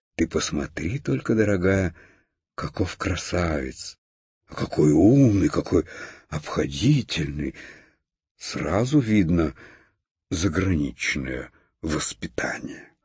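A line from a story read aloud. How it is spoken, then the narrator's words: Delighted whisper. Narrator (Russian): Хрустальная ваза в восторге шептала своей подруге фарфоровой конфетнице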